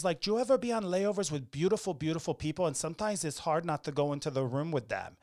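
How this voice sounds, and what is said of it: Bad put-on Colombian accent. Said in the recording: “She's from Colombia ... here I go with my bad accents.”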